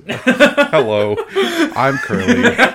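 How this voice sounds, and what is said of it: Microsoft Sam robotic voice impression. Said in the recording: “you gotta put in a Microsoft Sam voice.”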